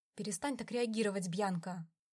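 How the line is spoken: Irritated command. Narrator (Russian): раздраженно приказал Дон

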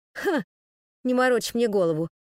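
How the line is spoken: Snorted. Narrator (Russian): фыркнул Немо

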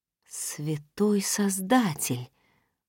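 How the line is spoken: Breathless exhale. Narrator (Russian): выдохнула я

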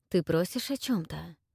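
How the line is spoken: Muttering. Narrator (Russian): пробормотал он

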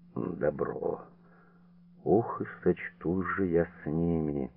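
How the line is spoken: Muffled, through clenched teeth. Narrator (Russian): Порфирий глухо, почти не разжимая зубов, выговорил

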